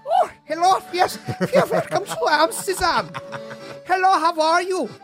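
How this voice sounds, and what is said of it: Put-on Dutch accent. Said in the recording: “if he pulls out a Dutch accent”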